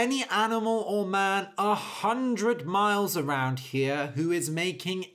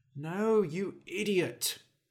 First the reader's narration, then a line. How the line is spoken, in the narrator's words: he muttered